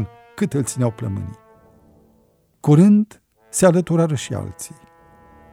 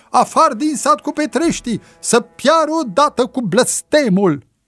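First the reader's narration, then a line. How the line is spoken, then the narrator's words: Crowd clamoring and shouting. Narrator (Romanian): O parte dintre cei adunați în jurul preotului, ca la un semn, începură să vocifereze și să strige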